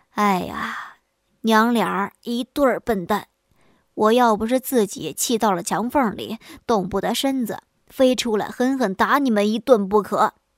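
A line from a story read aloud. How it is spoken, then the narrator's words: Angry, sighing. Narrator (Chinese): 老笨虫一听这话，气得唉声叹气道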